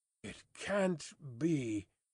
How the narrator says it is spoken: muttered Sidney Carton retrospectively

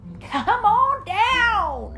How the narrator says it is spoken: cried Mater

